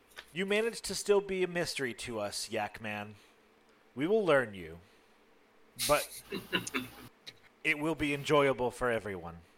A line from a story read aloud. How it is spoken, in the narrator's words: their voice is still soft and goes